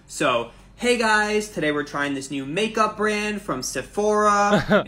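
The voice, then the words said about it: Influencer uptalk with rising tones. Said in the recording (French): “the influencer accent ... the uptalk always starts with a rising tone on the final stress syllable ... high tones on the following syllables”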